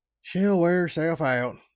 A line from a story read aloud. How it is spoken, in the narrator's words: I sighed